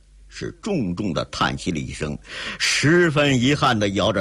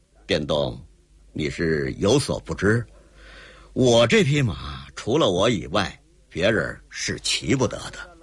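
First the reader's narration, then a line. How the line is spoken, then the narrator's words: Calm smile. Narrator (Chinese): 淡然一笑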